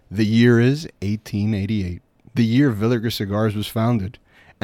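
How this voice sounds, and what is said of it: Dramatic movie trailer voice. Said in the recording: “I'm going to do this in my best movie voice.”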